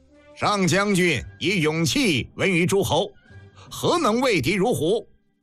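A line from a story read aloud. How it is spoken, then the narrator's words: Indignant, loud. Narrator (Chinese): 大将愤然高声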